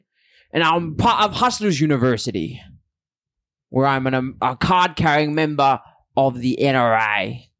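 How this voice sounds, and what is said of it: Botched put-on accent, sounds Australian. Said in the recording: “talk in an American accent, then he'll suddenly go turn into a British gentleman ... That's an Australian accent ... You can't even do an impression right”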